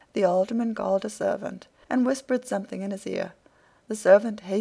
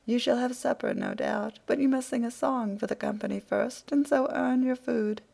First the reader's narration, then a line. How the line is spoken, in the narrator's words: The alderman laughed again at this shrewd answer and said